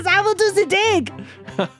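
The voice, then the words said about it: Bad put-on French accent. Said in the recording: “this horrible French accent ... does bad accents.”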